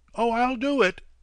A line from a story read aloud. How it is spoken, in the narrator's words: Jerry shouted back